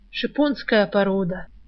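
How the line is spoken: Reverent whispering. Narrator (Russian): благоговейно шептались знатоки за Рыскиной спиной

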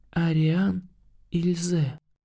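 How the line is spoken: Barely audible whisper. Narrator (Russian): прошептала чуть слышно

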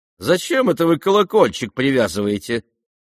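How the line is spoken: Cheerful. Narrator (Russian): весело проговорила она

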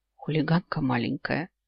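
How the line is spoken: Whisper. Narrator (Russian): шепнул

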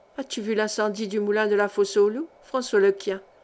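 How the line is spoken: Murmured. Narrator (French): murmura-t-elle

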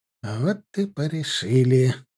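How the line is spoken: Relieved exhale. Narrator (Russian): будто бы облегченно выдохнул Шарипов

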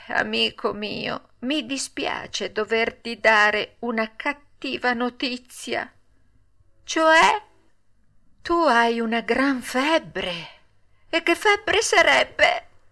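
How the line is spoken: Sighing, small animal. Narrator (Italian): La marmottina gli disse, sospirando

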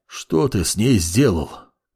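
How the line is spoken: Hoarse, wheezing. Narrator (Russian): Прохрипел Гевалерон

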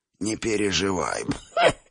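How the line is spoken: Wheezing old man, coughing. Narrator (Russian): просипел старик и снова закашлялся

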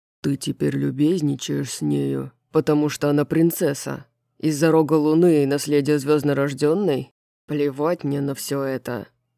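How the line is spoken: Growled reply. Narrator (Russian): прорычал в ответ Итан, поморщившись

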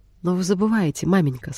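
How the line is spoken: Plain. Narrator (Russian): сказала Элизабет

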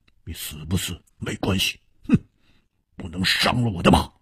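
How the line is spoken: Cold voice. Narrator (Chinese): 黑珍珠冷冷地说

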